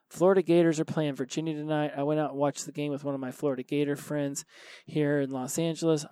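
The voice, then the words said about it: Tired, unwell-sounding voice. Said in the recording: “I'm not feeling very well, as you can maybe tell by my voice. I'm run down. I'm exhausted.”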